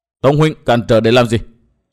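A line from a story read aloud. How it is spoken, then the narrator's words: Angry question. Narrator (Vietnamese): Nguyên Bình tức giận hỏi Tông Đào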